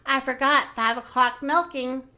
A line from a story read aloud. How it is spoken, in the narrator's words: gasped Minnie